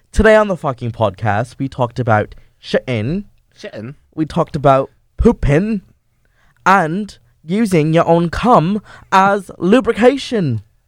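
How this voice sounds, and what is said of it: Put-on accent. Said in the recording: “I think that I have a really good accent ... do the entire recap in an accent ... So we'll do the entire thing in an accent.”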